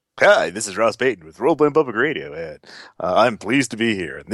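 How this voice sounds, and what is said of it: Put-on radio announcer voice. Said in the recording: “This is my announcer voice”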